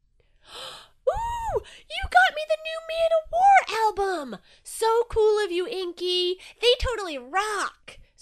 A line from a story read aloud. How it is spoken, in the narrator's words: screamed Jellyfish, psyched as ever